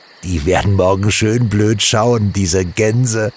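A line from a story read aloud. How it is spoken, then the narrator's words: Two giggling. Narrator (German): kicherten die beiden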